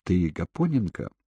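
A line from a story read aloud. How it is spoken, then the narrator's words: Quiet question. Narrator (Russian): тихо спросил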